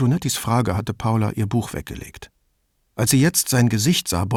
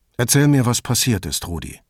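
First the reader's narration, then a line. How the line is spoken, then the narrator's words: Toneless. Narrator (German): sagte Brunetti tonlos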